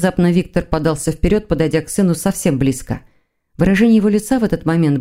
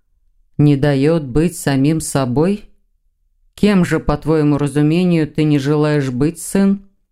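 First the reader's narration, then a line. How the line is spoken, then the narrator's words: Muffled, choked with emotion. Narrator (Russian): Голос отца звучал глухо от переполнявших его эмоций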